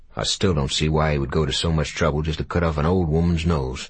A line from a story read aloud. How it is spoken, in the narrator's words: he muttered, mainly to himself